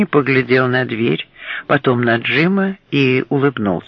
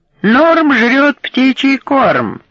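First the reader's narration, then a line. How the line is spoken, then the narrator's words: Yelling. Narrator (Russian): Дэвид Гарсия заорал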